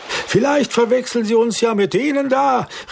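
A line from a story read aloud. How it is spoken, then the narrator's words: Excited call. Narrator (German): rief aufgeregt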